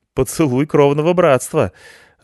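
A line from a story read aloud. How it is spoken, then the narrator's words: Nervous strange laugh. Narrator (Russian): засмеялась девушка нервно и странно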